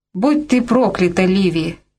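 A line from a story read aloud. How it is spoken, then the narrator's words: Sharp harsh. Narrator (Russian): резко сказал он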